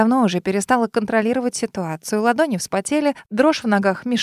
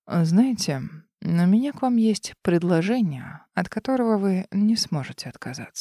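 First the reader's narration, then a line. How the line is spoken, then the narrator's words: Close whisper. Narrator (Russian): прошептал в опасной близости от моих губ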